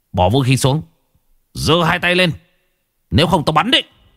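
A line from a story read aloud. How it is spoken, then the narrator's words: Shout. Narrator (Vietnamese): tiếng quát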